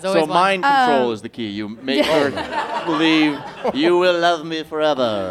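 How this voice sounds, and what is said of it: Alec Guinness Jedi impression. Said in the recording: “best impression ever of a Jedi... Your Sir Alec Guinness impression?... I like that voice... very good at voices”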